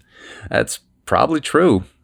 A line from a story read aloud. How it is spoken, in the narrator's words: he chuckled